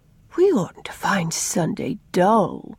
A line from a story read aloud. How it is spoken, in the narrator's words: said Una sleepily